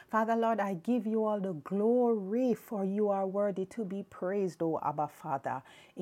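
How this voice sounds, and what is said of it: Strained, unwell-sounding voice. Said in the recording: “sorry about my voice... woke up this morning and for somehow I just started to get this sort of issue with my voice”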